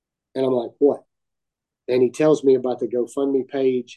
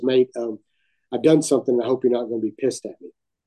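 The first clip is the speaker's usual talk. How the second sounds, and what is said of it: Weak put-on English accent. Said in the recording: “I'm terrible at English accent”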